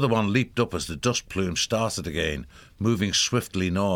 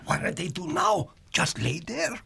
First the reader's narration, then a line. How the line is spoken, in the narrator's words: One whispered